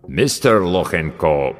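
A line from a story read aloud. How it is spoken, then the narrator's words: Deep voice, mangled name. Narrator (Russian): пробасил авербанкаща, безбожно коверкая фамилию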